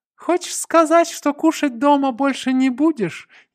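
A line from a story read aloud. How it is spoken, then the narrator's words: Snide question. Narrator (Russian): ехидно осведомился кубинец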